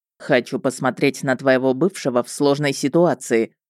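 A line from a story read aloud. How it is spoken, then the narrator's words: Smirking snort. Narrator (Russian): хмыкнул Любомир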